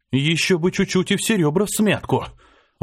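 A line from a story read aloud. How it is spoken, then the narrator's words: Breathed out. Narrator (Russian): выдохнул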